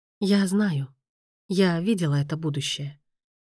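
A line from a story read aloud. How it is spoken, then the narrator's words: Sighing. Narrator (Russian): вздохнула Дамиана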